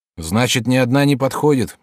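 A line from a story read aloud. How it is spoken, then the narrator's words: Glum question. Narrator (Russian): уныло спросил Сампэй-кун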